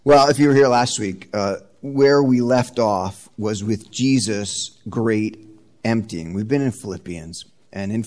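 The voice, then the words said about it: Slightly raspy, congested voice. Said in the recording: “I have a little bit of a head cold, and my throat's a little raspy”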